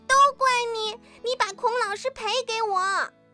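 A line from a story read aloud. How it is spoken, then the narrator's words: Child shouting. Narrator (Chinese): 小朋友冲着嘉伟喊了起来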